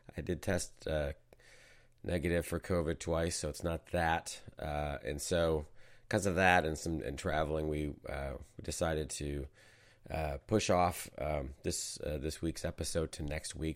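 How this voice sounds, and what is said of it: Sick, hoarse voice on verge of coughing. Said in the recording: “You can maybe tell it in my voice. ... I've been a bit under the weather. I think I've had the flu. ... hack my way through an episode as I'm on the verge of doing now”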